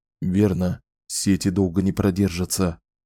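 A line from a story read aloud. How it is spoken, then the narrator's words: Whispered reminder. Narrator (Russian): шепотом напомнил Уоррен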